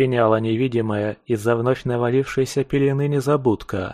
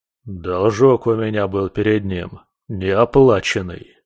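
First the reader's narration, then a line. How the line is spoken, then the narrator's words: Grumbling. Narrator (Russian): проворчал викинг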